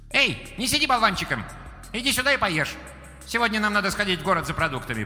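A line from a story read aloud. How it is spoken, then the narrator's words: Sharp scolding call. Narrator (Russian): прикрикнула Юйлянь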